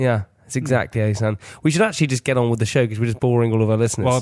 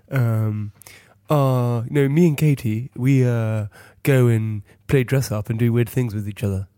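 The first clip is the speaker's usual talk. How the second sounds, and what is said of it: Imitates another person's voice. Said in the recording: “Exactly, that's uncanny. That's exactly how you sound.”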